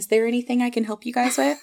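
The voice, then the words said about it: Customer service voice. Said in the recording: “customer service voice”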